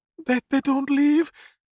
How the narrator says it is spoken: Maria sobbed

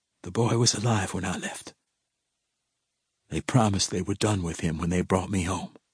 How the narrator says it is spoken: whispered

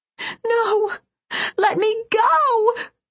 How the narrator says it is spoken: screamed

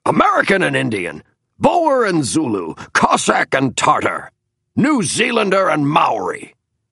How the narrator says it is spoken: barked Roosevelt

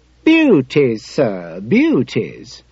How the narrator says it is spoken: said the boy cheerfully

